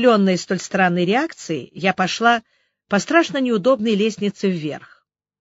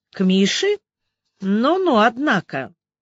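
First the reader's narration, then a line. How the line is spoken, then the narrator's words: Drawling. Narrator (Russian): Соседка протянула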